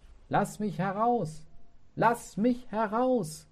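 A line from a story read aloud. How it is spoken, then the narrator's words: Repeated cry. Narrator (German): rief's von Neuem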